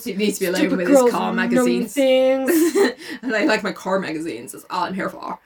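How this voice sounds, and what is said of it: Terrible put-on Southern accent. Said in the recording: “the southern accent is annoying... our terrible accents are here to stay... it's really hard to speak in a normal voice”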